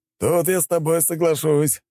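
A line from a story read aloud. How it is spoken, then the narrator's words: Chuckling man. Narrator (Russian): хохотнул мужчина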